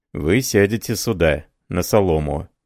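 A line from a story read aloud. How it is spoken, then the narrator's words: Plain. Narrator (Russian): сказал он чревовещателю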